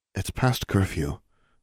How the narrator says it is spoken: Anna said quietly

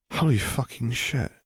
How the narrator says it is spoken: Zev muttered out

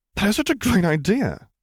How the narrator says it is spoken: exclaimed Harry

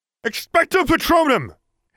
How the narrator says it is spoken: cried, shakily

